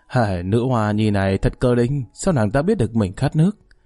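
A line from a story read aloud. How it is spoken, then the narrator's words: Amused, smiling. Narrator (Vietnamese): Tống Huy Tông không nhịn được mỉm cười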